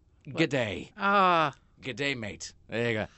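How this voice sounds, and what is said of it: Put-on Australian accent. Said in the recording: “dumb clerk speaks an Australian accent”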